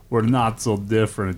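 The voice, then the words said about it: Put-on Russian accent. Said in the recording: “I don't know why I did a Russian accent.”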